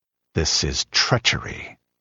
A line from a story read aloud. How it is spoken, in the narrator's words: muttered the king